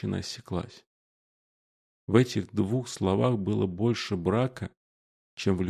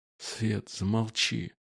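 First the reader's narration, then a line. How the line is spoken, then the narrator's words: Hoarse rasp through mask. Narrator (Russian): Мужчина на каталке прохрипел через маску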